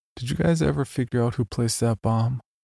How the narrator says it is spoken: I laughed softly

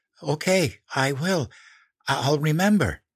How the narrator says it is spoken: gasped

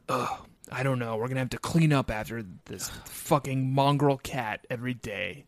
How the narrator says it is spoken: Spear, say in an exasperated tone

